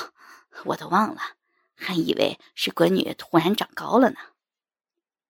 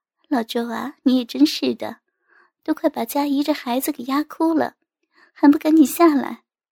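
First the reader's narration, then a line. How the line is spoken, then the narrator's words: Cheerful smiling. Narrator (Chinese): 金阿姨笑盈盈的道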